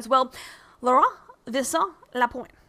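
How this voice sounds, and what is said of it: French accent on a name. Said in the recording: “I think I said that with appropriate French accent.”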